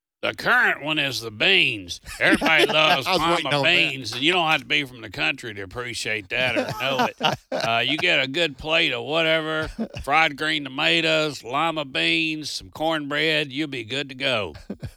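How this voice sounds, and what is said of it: Exaggerated country accent. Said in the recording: “being facetious with a real country accent”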